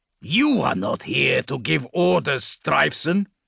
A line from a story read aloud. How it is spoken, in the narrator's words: growled dismissively